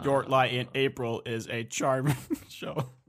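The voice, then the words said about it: Robotic synthesized-sounding voice. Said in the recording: “Discord robot voice”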